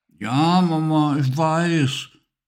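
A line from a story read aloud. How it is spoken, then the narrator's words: Mumbling with full mouth. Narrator (German): nuschelte Emily mit einem Stück Kartoffel im Mund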